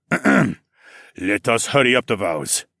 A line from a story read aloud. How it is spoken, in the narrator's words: the underground king muttered